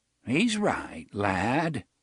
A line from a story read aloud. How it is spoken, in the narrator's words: Jonas said in his reedy, quavering voice